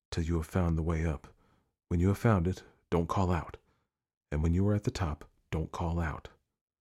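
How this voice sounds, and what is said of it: Peculiar low voice. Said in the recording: “in his peculiar low voice”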